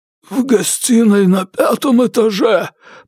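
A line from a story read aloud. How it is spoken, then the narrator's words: Hoarse wheeze. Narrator (Russian): прохрипел он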